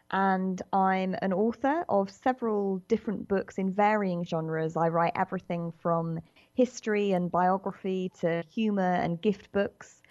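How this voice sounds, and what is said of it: British accent. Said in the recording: “as you can probably tell from my accent, I'm a British writer”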